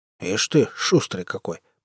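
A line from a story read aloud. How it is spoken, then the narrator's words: Soldier grumbling. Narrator (Russian): проворчал боец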